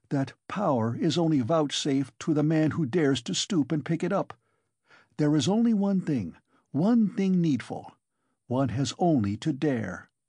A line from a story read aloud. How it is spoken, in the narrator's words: he went on eagerly